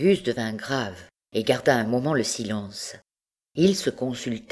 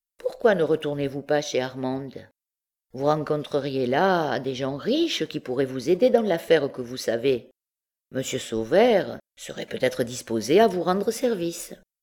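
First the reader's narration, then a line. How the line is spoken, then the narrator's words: Indifferent tone. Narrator (French): d'un ton indifférent, Fine ajouta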